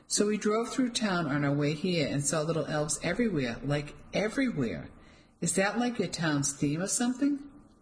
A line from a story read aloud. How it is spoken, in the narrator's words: I laughed